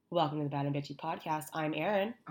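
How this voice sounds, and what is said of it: Congested, hoarse, nearly lost voice. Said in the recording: “I sound awful ... Oh, you sound sexy ... Not only am I congested, I now have lost my voice.”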